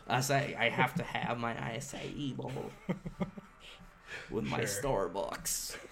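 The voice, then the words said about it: Put-on unidentified accent. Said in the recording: “I don't even know what accent that was”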